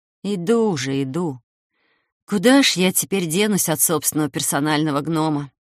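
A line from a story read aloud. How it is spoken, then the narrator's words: Muttered to oneself. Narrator (Russian): буркнул я про себя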